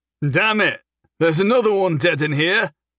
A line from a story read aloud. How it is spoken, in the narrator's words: he called out